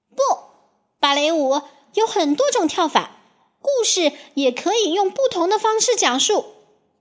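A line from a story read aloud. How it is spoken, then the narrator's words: Shouting. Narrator (Chinese): 冰雪女皇叫起来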